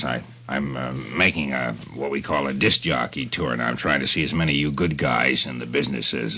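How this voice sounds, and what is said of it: Deep voice. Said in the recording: “such a deep voice ... A glorious voice”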